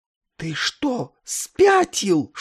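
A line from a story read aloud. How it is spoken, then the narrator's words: Horrified whisper. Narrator (Russian): шепнул, ужаснувшись, Нетли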